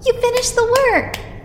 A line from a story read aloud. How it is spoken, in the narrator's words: Jacob exclaimed suddenly, clapping his hands together and bouncing his little body